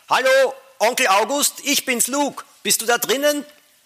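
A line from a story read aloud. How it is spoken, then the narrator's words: Deep breath, brave call. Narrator (German): Lukas nahm allen Mut zusammen, holte tief Luft und rief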